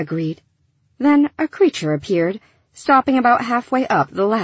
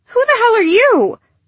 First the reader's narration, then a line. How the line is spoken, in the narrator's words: Gilly yelped